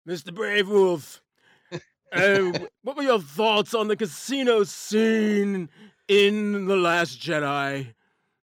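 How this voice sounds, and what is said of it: Asgardian dwarf character voice. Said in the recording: “in your Asgardian dwarf voice”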